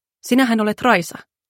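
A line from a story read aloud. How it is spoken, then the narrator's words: Asked softly. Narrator (Finnish): Niko kysyi pehmeästi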